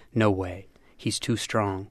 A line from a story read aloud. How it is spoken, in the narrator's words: One of Kevin's teammates paced back and forth near the finish line, murmuring